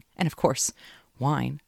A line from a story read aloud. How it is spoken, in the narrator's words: she laughed, adding